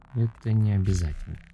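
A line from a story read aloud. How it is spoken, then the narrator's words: Mumbled. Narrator (Russian): промямлил он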